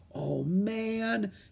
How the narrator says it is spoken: whispered

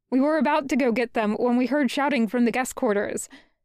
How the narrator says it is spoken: he says quickly

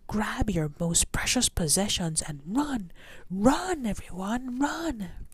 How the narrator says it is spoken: Men yelled

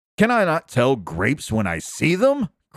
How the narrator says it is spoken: cried Tyrker

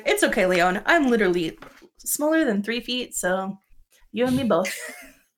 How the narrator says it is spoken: Gris just kind of chuckles and she's like

